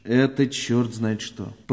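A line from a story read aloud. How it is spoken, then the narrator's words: Grumbled. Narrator (Russian): проворчал участковый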